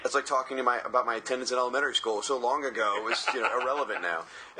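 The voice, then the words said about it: Hoarse, strained voice. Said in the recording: “Did I mention I lost my voice? ... Drinking Mai Tais and screaming and hooting and because lost my voice.”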